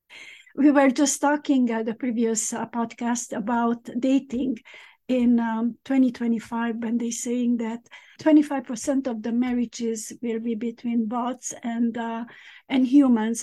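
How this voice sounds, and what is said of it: Strained voice, close to losing it. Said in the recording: “I might lose my voice.”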